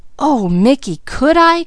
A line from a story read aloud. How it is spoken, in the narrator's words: cried Peaches